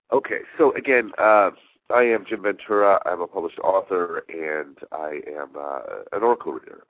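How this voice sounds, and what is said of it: Nasal, congested voice. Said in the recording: “I have some really nice sinus stuff going on ... if I sound a little nasally”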